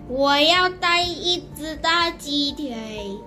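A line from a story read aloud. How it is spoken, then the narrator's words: Proud loud announcement. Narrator (Chinese): 李静很咪骄傲的大声宣布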